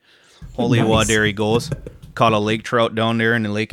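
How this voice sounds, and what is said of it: Put-on northern Michigan accent. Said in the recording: “a Michigan accent. It's a northern Michigan accent, ... it's more like boots and A's and ah's ... a little bit like deeper than Minnesota's”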